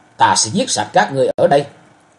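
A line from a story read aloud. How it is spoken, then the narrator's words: Loud roar. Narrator (Vietnamese): Chàng gầm to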